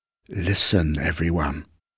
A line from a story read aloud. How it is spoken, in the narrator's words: whispered a voice